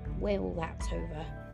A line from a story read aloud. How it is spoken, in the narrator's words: said in a low voice